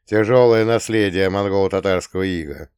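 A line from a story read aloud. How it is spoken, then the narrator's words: Chuckling. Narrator (Russian): хохотнул я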